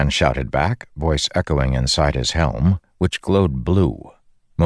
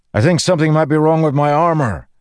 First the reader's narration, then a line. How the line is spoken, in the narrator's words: Dalinar shouted to him